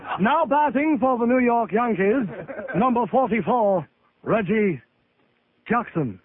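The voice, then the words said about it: Imitates a stadium announcer's voice. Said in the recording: “That's a pretty good Bob Shepard impression we do.”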